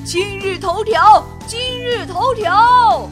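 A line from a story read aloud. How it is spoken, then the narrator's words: Uncle shouting. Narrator (Chinese): 皮卡斯大叔大喊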